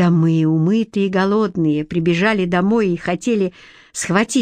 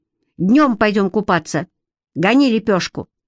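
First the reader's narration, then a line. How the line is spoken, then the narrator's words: Stern. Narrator (Russian): Я произнес строгим голосом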